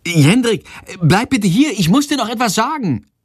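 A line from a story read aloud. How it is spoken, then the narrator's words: Calling out. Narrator (German): ruft sie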